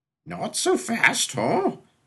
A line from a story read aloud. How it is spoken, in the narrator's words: said the whiskered sailor, his voice muffled by the underbrush covering his face